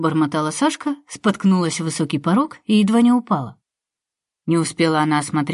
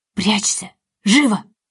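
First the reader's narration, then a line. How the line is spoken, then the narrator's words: Hostess hissing. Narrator (Russian): зашипела хозяйка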